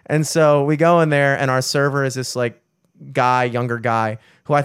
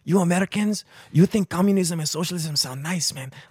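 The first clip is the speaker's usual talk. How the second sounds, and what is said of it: Put-on Cuban accent. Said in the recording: “younger guy, accent ... I'm Cuban, man.”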